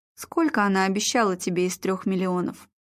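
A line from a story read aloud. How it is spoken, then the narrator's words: Plain. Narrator (Russian): спросил Игорь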